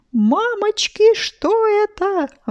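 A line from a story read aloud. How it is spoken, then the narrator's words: Exclamation. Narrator (Russian): воскликнул Сережа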